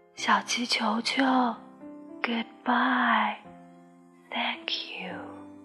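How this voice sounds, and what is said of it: Weak, faint voice. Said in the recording (Chinese): “向日葵用微弱的声音说”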